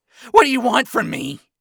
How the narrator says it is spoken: Ronnie yelled in panic

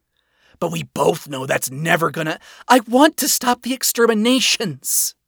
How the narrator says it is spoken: blurted

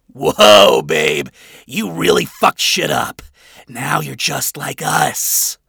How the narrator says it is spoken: Adam jeered as he let out more shrill laughter

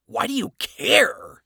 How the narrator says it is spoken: Adam asked with a scoff

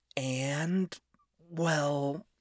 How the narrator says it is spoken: she sighed

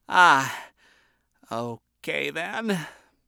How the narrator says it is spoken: quietly mumbled

